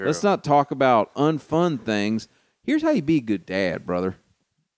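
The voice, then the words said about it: Put-on Southern accent, preacher voice. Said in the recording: “I've also given Andy Stanley a Southern accent ... He has a Southern accent now.”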